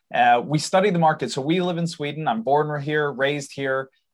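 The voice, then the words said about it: American-influenced accent. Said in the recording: “I apologize for my accent. That's my dad's fault. He's from the US.”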